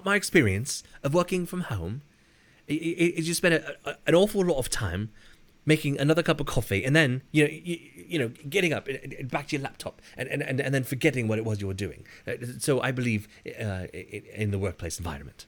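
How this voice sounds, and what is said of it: Boris Johnson impression via Hugh Grant. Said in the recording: “going to do my Boris Johnson impression, which is my Hugh Grant. impression that is Dana Carvey's Hugh Grant impression from the 90s”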